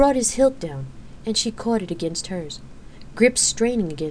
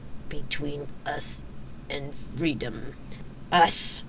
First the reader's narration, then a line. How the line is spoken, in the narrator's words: Xena rasped, gritting her teeth as their combined weight surged against her thigh muscles